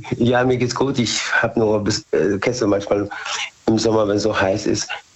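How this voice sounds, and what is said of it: Slightly hoarse voice. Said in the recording (German): “Ich bin ein bisschen heiser. ... man ist zwischendurch ein bisschen heiser”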